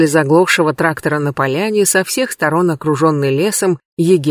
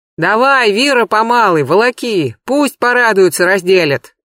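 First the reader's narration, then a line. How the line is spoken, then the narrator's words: Shout. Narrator (Russian): крикнул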